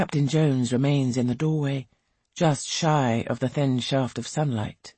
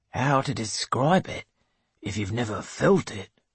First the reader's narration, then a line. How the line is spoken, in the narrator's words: he says softly